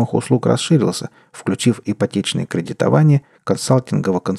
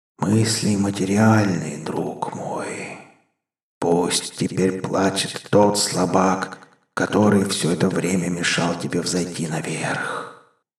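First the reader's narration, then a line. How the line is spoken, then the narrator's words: Sinister inner whisper. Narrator (Russian): прошептал внутренний голос как-то зловеще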